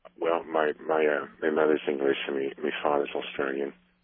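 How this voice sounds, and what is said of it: Mild Australian-English accent. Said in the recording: “a non-North American accent ... This sounds fake ... keeping it at what sounds like a deliberately low level”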